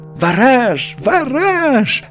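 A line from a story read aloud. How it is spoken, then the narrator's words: Two voices shouting joyfully. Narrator (Russian): радостно закричали крош с ежиком в 2 голоса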